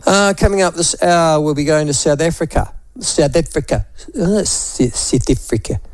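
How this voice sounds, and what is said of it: Attempted Afrikaans accent, not convincing. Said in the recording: “I was just trying to get my Afrikaans accent correct, and I've always got it wrong ... I always end up sounding like some sort of East Indian”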